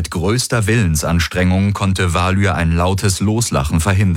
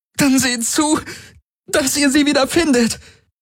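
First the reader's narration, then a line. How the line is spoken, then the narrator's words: Pained call. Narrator (German): rief Ylana unter Schmerzen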